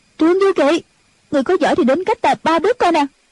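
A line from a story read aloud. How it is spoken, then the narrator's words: Anguished cry. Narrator (Vietnamese): Triệu Mẫn thống thiết kêu lên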